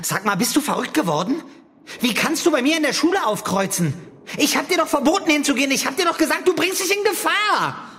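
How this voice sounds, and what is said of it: Angry shouting. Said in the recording (German): “Schrei doch nicht so ... Du schreist, du läufst rot an”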